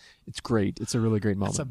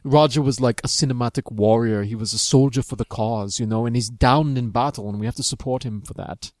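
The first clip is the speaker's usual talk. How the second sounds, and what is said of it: Imitates another person's voice. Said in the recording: “I love that impression ... you're the one who does the shitty impersonation of me”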